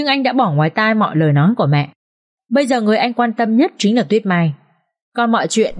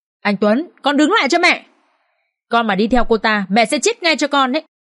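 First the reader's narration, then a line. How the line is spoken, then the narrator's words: Woman's desperate scream. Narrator (Vietnamese): Bà Thu Hoài hét lên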